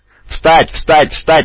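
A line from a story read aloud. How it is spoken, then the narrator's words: Yelling. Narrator (Russian): вопил Дев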